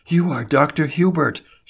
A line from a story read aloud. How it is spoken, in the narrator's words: she gasped